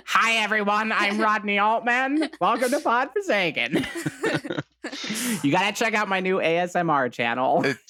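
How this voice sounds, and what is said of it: Imitates another person's voice. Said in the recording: “Today, we're joined by Gilbert Gottfried. ... his voice is hard to do. He has a very unique voice.”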